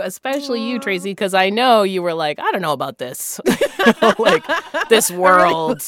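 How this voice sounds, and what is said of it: Usual voice. Nothing is said of it.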